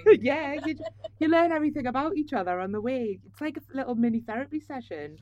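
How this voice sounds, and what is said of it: Geordie Tyneside English accent. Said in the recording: “your accent, which is from Tyneside ... it's a friendly accent ... Are you a Geordie?”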